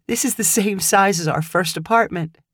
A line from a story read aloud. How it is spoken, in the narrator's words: Kim said with a laugh